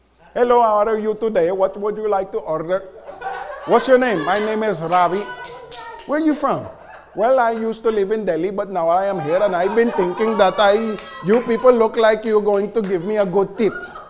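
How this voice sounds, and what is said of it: Put-on Indian accent. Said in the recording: “true Indians ... we always look to listen for the accent.”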